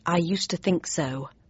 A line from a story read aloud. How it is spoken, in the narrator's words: I said under my breath